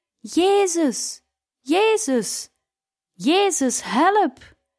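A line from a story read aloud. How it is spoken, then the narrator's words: Loud spontaneous crying out. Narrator (Dutch): mijn medezuster Birgitta begon spontaan luid te roepen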